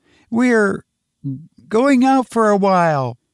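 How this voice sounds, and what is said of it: Wavering, shaky voice. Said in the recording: “in a wavering voice”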